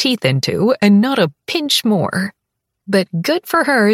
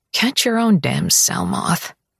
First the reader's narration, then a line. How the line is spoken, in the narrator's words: I mutter